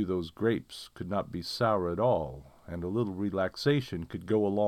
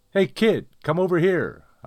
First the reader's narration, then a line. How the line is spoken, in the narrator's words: hollered across the street